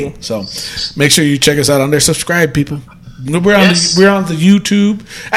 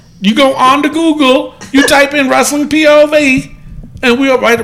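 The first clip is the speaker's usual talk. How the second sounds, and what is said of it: Put-on New Mexico accent. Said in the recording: “Why did I turn into an accent? That's New Mexico.”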